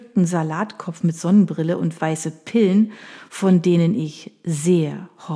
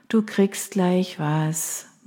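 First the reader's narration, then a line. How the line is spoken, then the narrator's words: Tired smiling murmur. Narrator (German): murmelte ich müde lächelnd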